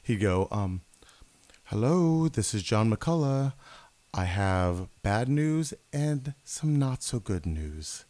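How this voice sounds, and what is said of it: Soft-spoken imitation of another person. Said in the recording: “I still do a great impression of him, by the way. ... It's very soft.”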